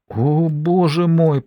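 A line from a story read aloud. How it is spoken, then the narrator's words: Moaning. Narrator (Russian): простонала Бергитта Ларсен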